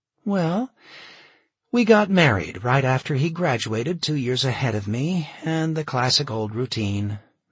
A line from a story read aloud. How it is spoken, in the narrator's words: Michaela said with a sigh